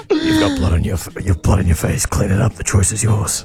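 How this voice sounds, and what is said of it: Saw movie villain voice impression. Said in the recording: “doing a Saw impression”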